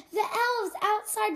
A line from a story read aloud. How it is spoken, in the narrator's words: shouted one of the children